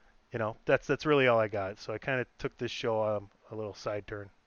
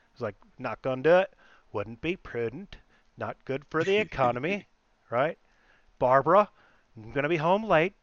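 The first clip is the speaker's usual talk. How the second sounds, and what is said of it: Dana Carvey's George Bush impression. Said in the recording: “impersonation of Dana Carvey doing a George Bush impersonation ... my impersonation of Dana Carvey impersonating George Bush”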